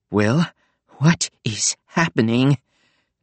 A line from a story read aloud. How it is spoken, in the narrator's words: Nico asked, panting